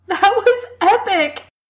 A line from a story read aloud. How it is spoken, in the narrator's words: he gasps out